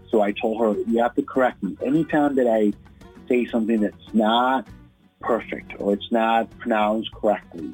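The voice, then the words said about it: Latino East Coast accent. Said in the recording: “I have this like Latino East Coast accent that just follows me everywhere”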